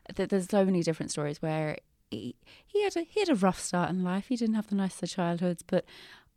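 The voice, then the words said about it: English accent. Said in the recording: “having a very English accent”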